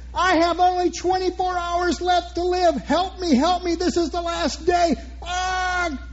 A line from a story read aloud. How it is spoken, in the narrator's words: She dashes away screaming